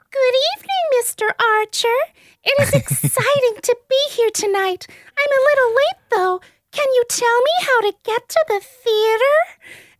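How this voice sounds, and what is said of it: B-grade Disney princess voice. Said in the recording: “a voice kind of like the B-grade version of what Amy Adams did in Enchanted, like trying to do a Disney princess, kind of ends up sounding like, what's her name, Gypsy Rose Blanchard”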